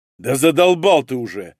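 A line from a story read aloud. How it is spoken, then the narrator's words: Harsh bark. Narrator (Russian): рявкнул Малинин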